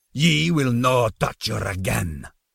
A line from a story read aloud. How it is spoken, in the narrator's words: roared